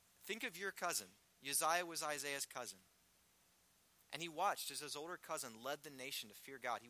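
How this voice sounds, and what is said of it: Rural American twang. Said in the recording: “That's my twang. Redneck”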